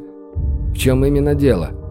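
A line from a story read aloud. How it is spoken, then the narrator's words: Plain. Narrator (Russian): спросил он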